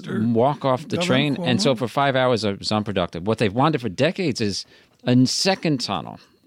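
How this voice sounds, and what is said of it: Staten Island New York accent. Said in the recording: “with your accent, you got to be from someplace south like Staten Island”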